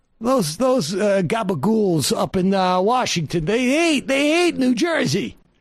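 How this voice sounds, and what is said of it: James Gandolfini New Jersey impression. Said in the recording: “Doing a James Gandolfini impression in New Jersey.”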